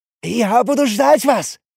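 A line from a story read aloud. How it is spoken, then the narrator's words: Small one shouting. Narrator (Russian): выкрикнул мелкий Шабиш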